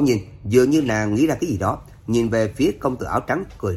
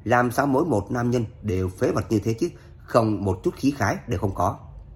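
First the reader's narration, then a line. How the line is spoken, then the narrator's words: Pouting mutter. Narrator (Vietnamese): Tiếu tiểu thư kia không khỏi bĩu môi lẩm bẩm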